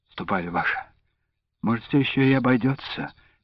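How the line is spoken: Uncertain suggestion. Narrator (Russian): неуверенно предположил Андрейка

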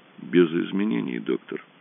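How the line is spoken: Struggling unsteady voice. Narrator (Russian): ответил Рэндалл, изо всех сил стараясь справиться с неожиданно непослушным голосом

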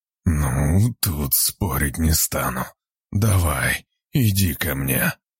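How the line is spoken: Hoarse rasp, man. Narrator (Russian): прохрипел мужчина

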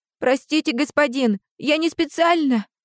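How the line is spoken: Trembling boy's voice. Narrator (Russian): Дрожащим голосом выдавил из себя мальчик

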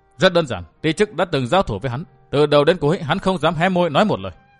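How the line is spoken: Stern voice. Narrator (Vietnamese): Vũ Á Vinh nghiêm giọng

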